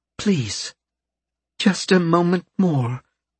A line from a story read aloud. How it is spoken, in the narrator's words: she asked, her voice trembling with emotion